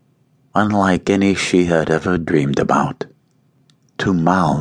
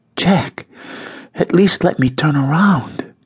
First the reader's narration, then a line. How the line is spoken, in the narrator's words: she gasped, surprised at his ardor